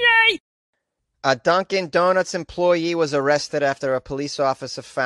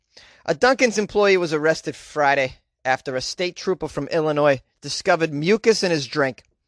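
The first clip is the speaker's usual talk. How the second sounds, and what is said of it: Put-on Boston accent. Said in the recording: “I'm going to do this in a Boston accent”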